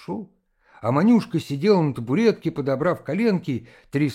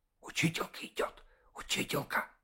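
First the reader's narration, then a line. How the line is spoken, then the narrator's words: Boys whispering. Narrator (Russian): зашептали мальчишки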